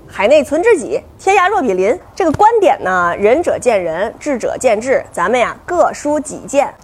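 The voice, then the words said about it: Mixed northern Chinese regional accent. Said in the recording (Chinese): “我这个口音里头，呃，融合了什么天津话呀，啊，什么保定的呀，啊，石家庄的呀，什么张家口的呀，还有什么潍坊的呀”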